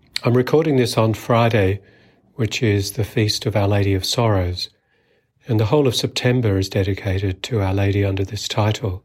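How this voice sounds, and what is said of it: Voice sounds off from a cold. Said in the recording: “Excuse my voice if it sounds a bit different. I've had a cold the past couple of days and just getting over it.”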